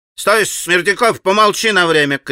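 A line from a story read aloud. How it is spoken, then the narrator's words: Shouted. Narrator (Russian): крикнул опять Федор Павлович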